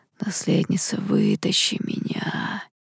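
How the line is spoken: Faint crackling eerie whisper. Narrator (Russian): едва различимый, трескучий и до мурашек пугающий шепот

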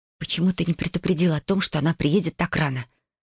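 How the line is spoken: Irritated whisper. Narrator (Russian): раздраженно прошептала я

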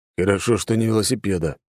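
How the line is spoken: Grumble. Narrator (Russian): буркнул Алекс

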